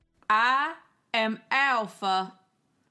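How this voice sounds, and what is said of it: Alpha character voice. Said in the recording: “You're not going to do that voice this entire podcast... You wanted to do your Alpha thing... her accent”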